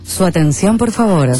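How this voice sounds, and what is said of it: Radio announcer voice. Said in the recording (Spanish): “Esta tiene medio voz de locutora ... ¿Sabes que locuta en serio? Es impresionante.”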